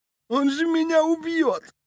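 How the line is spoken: Sobbing. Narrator (Russian): прорыдал Иголка

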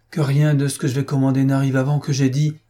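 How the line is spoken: Sigh. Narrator (French): soupira-t-il

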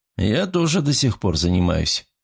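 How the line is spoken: Rather cold. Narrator (Russian): заметил я довольно холодно

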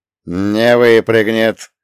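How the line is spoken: Strained through clenched teeth. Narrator (Russian): сквозь зубы процедил я, чувствуя, как горят мои собственные трицепсы

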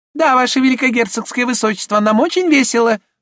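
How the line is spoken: Thin squeaky female voice. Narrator (Russian): ответила она тонким пискливым голосом

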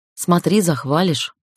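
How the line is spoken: Snorting. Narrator (Russian): фыркнула я

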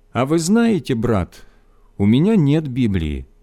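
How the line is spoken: Thoughtful, as if to himself. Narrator (Russian): задумчивым голосом, словно обращаясь более к себе, чем к нам, сказал

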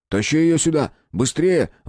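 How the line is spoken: Shouted. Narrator (Russian): выкрикнул Колька

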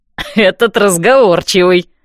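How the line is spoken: Knowing snort. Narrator (Russian): фыркнул Дан со знанием дела

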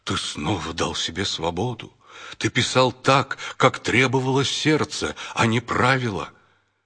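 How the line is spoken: Agitated. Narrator (Russian): Петр взволнованно сказал

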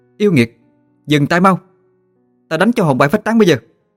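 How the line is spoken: Woman shouting. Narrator (Vietnamese): Cô mới la lên

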